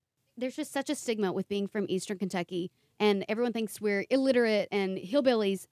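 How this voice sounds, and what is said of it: Thick Eastern Kentucky Appalachian accent. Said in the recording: “I'm from Eastern Kentucky ... raised in the mountains in the Appalachian region ... I have a thick accent”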